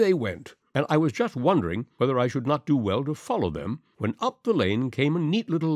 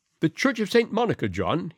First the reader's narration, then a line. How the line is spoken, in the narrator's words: she cried